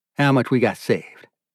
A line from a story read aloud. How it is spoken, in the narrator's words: he asks